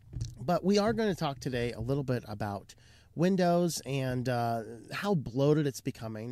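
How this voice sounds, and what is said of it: Hoarse, strained voice. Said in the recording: “I seem to be a little bit losing my voice ... First time I've actually gotten sick in a while that caused a loss of my voice”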